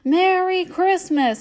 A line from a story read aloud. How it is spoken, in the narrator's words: he shouted